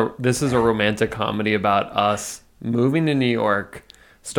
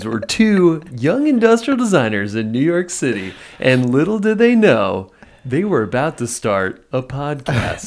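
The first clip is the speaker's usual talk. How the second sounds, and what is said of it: Movie trailer announcer voice. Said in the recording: “that's ... radio ... radio voice. Yeah, that's my movie trailer voice.”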